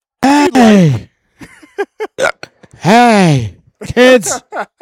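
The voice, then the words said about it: Imitates another person's voice. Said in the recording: “my best Harry Carey impression”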